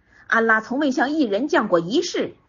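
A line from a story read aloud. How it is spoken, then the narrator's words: Angry, blurted out. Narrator (Chinese): 马氏恼羞变怒，随信口说出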